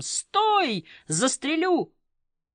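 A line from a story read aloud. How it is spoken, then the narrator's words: Frightened distorted shout. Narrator (Russian): часовой ... решив, что это новое нападение, закричал не своим голосом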